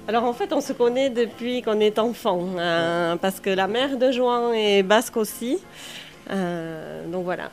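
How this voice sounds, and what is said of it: Singsong southern Basque French accent. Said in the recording (French): “Vous avez un accent qui chante, dites donc. ... Eh oui, du sud. ... Du Pays Basque.”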